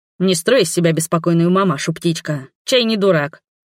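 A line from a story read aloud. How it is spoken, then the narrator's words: Grinning smirk. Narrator (Russian): хмыкнул этот балбес, расплываясь в улыбке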